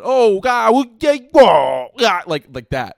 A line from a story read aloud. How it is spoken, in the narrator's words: I screamed